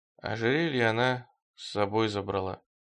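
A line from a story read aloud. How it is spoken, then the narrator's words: Barely audible. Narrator (Russian): еле слышно сказал Стремглав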